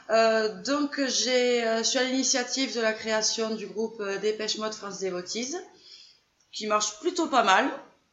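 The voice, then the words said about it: Southern French accent. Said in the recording (French): “j'ai l'accent du Sud”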